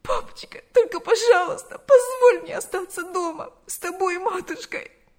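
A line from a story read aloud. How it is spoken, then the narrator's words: Sobbing voice. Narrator (Russian): Ее голос утонул в рыданиях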